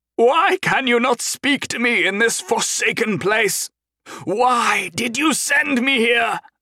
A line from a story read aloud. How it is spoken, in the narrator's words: he cried to the sky